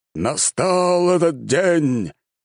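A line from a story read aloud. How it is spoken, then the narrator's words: Delighted exclamation. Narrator (Russian): с нескрываемым восторгом воскликнул лорд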